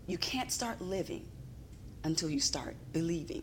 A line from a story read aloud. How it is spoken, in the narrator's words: And he just whispered